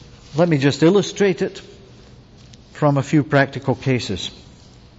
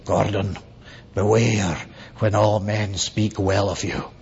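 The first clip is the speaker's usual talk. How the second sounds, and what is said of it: Scottish accent with rolled R's. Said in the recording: “rolls the R's, you know, it's a real Scots accent.”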